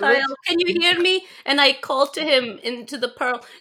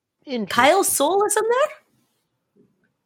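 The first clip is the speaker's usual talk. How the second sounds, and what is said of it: Suddenly high-pitched voice. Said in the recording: “did my voice just get so high?”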